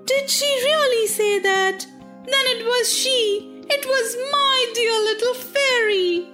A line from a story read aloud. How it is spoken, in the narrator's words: exclaimed Pinocchio, crying and sobbing